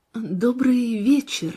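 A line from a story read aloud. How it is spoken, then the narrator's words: Trembling greeting. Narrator (Russian): дрогнувшим голосом поздоровалась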